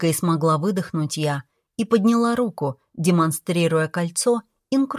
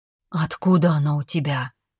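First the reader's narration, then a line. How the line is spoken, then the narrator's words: Near whisper. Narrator (Russian): спросил он почти шепотом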